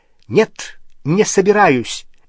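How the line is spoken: Sharp reply. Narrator (Russian): резко ответила Гермиона

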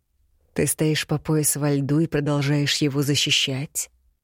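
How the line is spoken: Quiet commanding male voice. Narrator (Russian): Тихо, но весьма властно произнес мужчина

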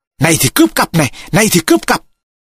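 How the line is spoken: Shout. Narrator (Vietnamese): Mồm hét

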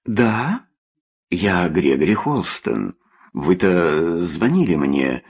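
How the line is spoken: Stammering. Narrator (Russian): Он почему-то начал заикаться

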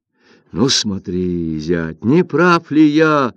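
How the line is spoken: Exclaimed. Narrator (Russian): воскликнул Линь Джиян

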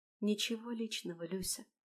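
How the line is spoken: Whisper in empty hall. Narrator (Russian): прошептала пустому залу

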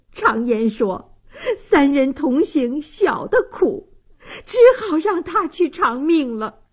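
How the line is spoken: Sobbing, choked old woman. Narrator (Chinese): 王大妈泪流满面，泣不成声，哽咽道

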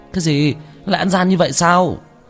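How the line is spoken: Angry shout. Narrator (Vietnamese): Chu Gia Hào nổi giận hét lên

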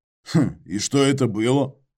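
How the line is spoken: Hmph. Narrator (Russian): хмыкнул я

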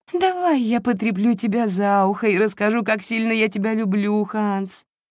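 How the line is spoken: Pleading moan. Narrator (Russian): умоляюще простонала герцогиня

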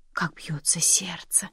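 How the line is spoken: Savoring whisper. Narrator (Russian): прошептал он, смакуя ощущение

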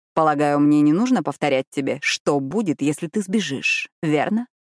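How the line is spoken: Mumbling around cigarette. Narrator (Russian): Пробормотал он с сигаретой в зубах

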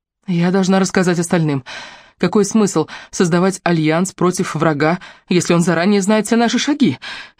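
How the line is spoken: Frightened. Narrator (Russian): испуганно сказала я

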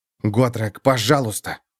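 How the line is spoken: Pleading whisper. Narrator (Russian): прошептал Феликс

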